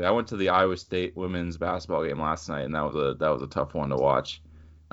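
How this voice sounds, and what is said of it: Slightly scratchy voice. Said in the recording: “my voice is a little scratchy today. I was uh, getting on the refs a little bit”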